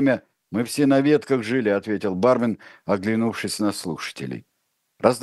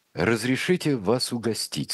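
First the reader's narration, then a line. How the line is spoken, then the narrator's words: Plain. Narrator (Russian): сказал он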